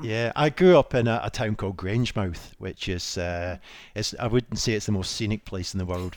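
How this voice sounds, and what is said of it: Scottish accent. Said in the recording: “you've got a lovely Scottish accent”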